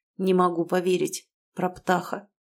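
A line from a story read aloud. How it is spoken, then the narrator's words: Quiet. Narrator (Russian): сказал Тарас тихо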